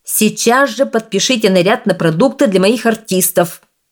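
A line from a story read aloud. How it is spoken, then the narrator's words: Shouting. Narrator (Russian): закричал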